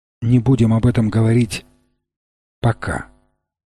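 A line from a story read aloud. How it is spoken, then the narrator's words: Chivalrous tenderness. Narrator (Russian): сказал он с чисто рыцарской нежностью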